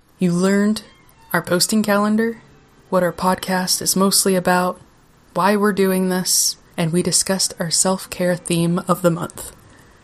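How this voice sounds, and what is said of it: Unusual accent. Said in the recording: “why I have a weird accent.”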